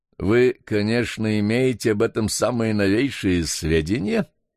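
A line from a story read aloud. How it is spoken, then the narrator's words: Mocking. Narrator (Russian): насмешливо осведомился доктор Брие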